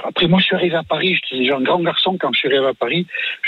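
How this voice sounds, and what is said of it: Distinct regional French accent. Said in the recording (French): “avoir un accent, est-ce que ça vous a servi dans votre carrière? ... si vous n'aviez pas eu cet accent? ... on jouait beaucoup sur votre accent. Nicolas Canteloup, par exemple, vous singez aussi sur votre accent. C'est-à-dire que c'est une vraie particularité”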